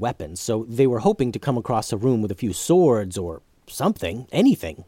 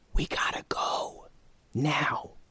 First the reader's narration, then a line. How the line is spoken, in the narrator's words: he whispered